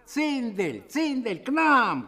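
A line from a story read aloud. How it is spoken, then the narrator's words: Shouting from steps. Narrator (Russian): кричали со ступеней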